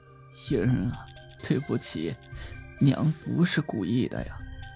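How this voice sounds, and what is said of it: Soft, quiet apologetic voice. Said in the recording (Chinese): “小声地说”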